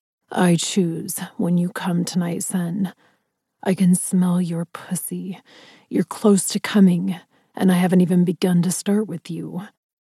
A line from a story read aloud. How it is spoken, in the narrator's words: Ryder growled huskily, his mouth hovering beside my ear